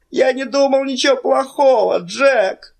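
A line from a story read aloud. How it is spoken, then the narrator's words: Moaning. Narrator (Russian): простонал Билли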